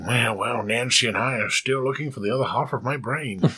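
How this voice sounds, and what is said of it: Ronald Reagan impression. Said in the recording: “you suddenly sounded like Ronald Reagan”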